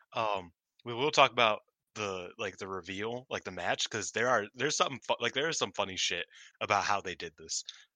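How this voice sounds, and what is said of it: Hoarse, strained voice. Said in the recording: “damn, I'm losing my voice already.”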